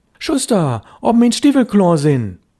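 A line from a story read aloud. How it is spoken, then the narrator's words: Louder call. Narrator (German): Störtebecker rief schon lauter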